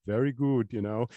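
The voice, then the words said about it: Austrian accent imitation. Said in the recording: “in that, you know, that Austrian accent”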